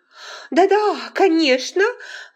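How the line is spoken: Exclaimed in unison. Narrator (Russian): воскликнули в один голос

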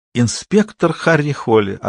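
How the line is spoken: Ringing laughter. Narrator (Russian): ответила она, звонко рассмеявшись, как будто он рассказал смешной анекдот

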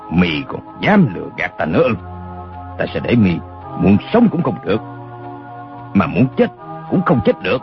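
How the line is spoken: Menacing growl. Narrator (Vietnamese): Đinh Xuân Thu mắt lộ hung quang, gằn giọng nói

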